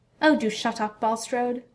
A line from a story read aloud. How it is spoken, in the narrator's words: Malfoy spat